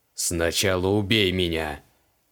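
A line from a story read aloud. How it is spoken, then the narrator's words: Bristling growl. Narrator (Russian): прорычал моментально ощетинившийся Криол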